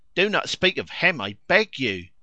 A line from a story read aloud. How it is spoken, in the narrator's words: she cried, turning pale